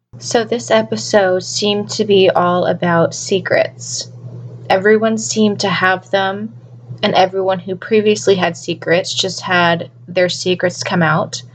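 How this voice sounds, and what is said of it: Scratchy, fading voice from illness. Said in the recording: “I have been sick all this week, so I am losing my voice. My voice is very scratchy right now.”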